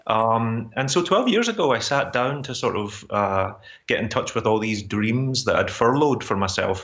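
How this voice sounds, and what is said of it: Glasgow Scottish accent. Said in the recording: “the Glasgow accent has never gone away.”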